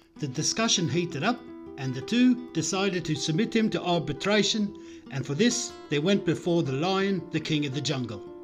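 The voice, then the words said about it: Poor put-on South African accent. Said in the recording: “that ridiculous excuse of a South African accent”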